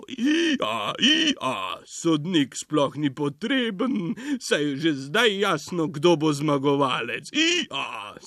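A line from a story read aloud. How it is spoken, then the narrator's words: Laughing donkey. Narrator (Slovenian): se je zasmejal osel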